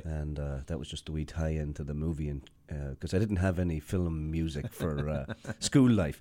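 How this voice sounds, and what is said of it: Irish Sligo accent. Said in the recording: “Right, so that's the Sligo way. ... awful jibing about my accent.”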